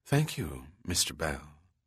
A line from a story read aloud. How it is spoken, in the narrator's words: said in a mellow yet husky tone